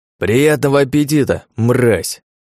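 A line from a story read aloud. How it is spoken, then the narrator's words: Shouted. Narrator (Russian): выкрикнул он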